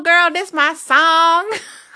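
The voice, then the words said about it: Put-on southern accent. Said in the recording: “accent. It's like this real southern accent.”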